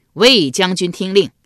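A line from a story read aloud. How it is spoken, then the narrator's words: Loud call. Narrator (Chinese): 管仲又高声叫道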